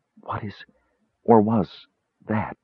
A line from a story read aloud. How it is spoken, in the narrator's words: She whispered in horror